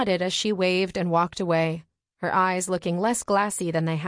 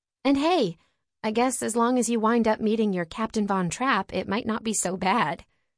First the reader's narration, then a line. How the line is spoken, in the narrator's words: Serena said